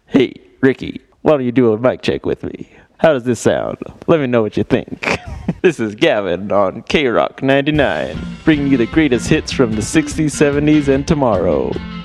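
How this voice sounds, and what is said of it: Imitates another person's radio-host voice. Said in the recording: “my impression of how you sound while you're holding a microphone”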